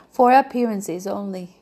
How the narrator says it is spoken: she gave a little sigh

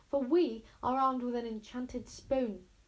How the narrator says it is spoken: shouted Wish at the terrifying, screeching nothingness

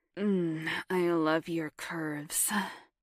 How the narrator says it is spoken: moaned Tucker

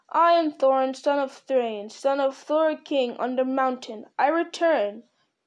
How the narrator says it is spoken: cried in a loud voice from the door

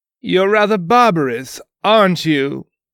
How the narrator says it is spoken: He laughed

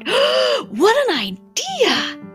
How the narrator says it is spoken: When the ringmaster woke up, he exclaimed

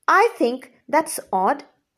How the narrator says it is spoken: Cedric said

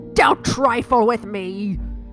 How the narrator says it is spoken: bellowed

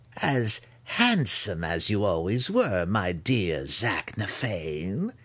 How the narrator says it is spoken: Malice purred to the spirit wraith

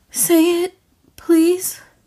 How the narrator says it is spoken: she begged

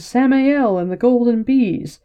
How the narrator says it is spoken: Shadow Spawn and Dark Friend shouting

